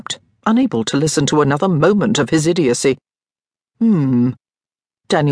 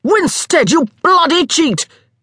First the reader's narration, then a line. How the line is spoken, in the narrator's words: Hugh yelled, the words pouring unbidden from his throat